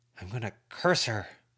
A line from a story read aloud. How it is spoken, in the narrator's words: Lucy muttered